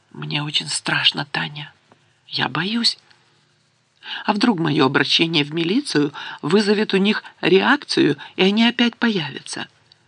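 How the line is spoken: Quiet. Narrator (Russian): тихо сказала

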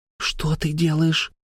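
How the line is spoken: Quick hiss. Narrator (Russian): тут же зашипела Хаюн

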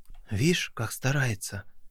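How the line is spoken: Whisper. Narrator (Russian): прошептал Вова

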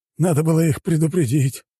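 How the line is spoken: Sigh. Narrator (Russian): вздохнул тот

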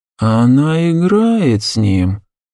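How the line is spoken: Thoughtful drawl. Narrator (Russian): задумчиво протянул Шахрияр

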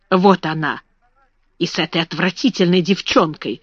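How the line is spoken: Whispered. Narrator (Russian): шепнула Лавиния

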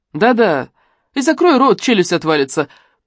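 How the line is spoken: Mocking shout. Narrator (Russian): прикрикнула она насмешливо

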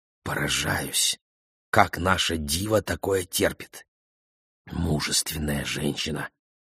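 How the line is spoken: Whisper. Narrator (Russian): Тоже шепотом ответил ему Рубен

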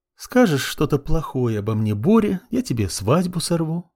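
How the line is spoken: Sugary sing-song, smiling. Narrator (Russian): Елейным голосом, не снимая улыбки с лица, пропела она

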